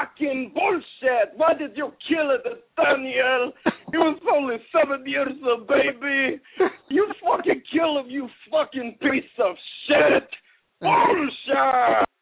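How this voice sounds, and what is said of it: Shouted Iron Sheik impression. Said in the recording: “do the Iron Sheik voice? ... It wasn't as good as the James, I would say. But it was pretty good. ... It's a lot of dueling accents.”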